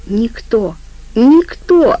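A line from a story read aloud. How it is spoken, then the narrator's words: Clipped, emphatic. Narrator (Russian): отчеканил Жопа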